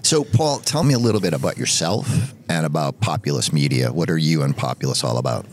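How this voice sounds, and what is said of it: Boston accent. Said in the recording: “in Boston, my hometown, if you didn't just hear that in my voice.”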